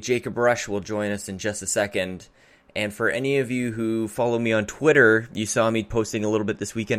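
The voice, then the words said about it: Tired-sounding voice. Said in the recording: “why my voice sounds the way that it does. I'm a little I'm a little tired.”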